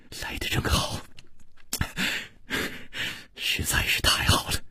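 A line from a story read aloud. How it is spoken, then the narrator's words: Gentle, soft. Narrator (Chinese): 楚留香 柔声说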